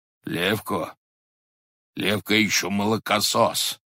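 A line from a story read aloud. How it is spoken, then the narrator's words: Hoarse low voice. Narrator (Russian): говорил хрипло и в полголоса высокий человек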